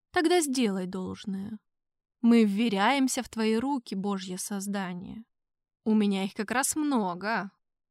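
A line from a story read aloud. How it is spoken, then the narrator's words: Gentle, smiling. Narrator (Russian): папа Римский мягко улыбнулся и произнес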